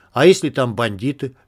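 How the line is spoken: Plain. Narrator (Russian): спросил Вадик

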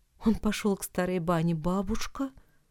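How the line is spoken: Quiet. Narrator (Russian): тихо сказал ей Никита

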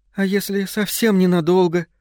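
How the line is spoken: Pleading. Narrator (Russian): взмолилась Джилл

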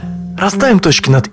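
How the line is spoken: Devil speaking with a sigh. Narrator (Russian): Вздохнув, черт сказал

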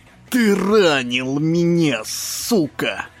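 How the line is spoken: Angry hiss. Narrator (Russian): Прошипел Шимми

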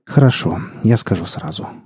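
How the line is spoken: Sigh. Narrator (Russian): вздохнул Лешка

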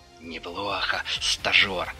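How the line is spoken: Through gritted teeth. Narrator (Russian): Процедил инструктор

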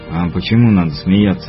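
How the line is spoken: Grumbled. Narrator (Russian): буркнул Муха

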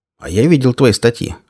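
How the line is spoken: Smirking grunt. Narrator (Russian): хмыкнул Кирзон

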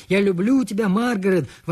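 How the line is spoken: Shouting. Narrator (Russian): прокричал Альберт

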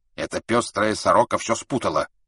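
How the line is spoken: Angry old woman interrupting. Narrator (Russian): сердито прервала старая туркменка

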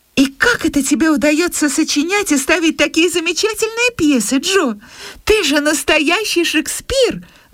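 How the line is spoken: Admiring girl's exclamation. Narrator (Russian): воскликнула Бесс, которая твердо верила, что все ее сестры обладают чудесными талантами во всех сферах

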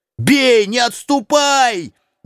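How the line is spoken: Shout. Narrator (Russian): крикнул Квакин

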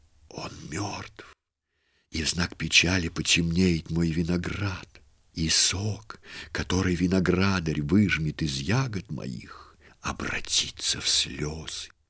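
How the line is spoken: Whisper. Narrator (Russian): Сарептская лоза шептала

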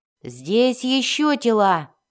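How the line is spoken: Shouting elf. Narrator (Russian): крикнул эльф

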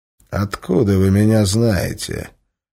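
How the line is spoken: Hoarse threatening question. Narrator (Russian): хриплым угрожающим голосом спросил незнакомец

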